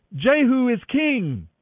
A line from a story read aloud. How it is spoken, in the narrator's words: shouting